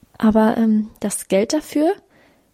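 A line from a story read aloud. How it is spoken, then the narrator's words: Stammering. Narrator (German): stammelte sie dann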